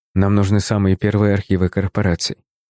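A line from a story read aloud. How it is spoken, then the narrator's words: Quick speech. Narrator (Russian): быстро произнес я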